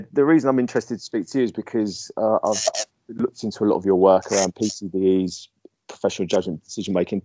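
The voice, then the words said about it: Essex English accent. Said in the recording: “my Essex accent”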